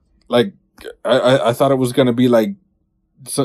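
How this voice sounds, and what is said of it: Usual voice. Nothing is said of it.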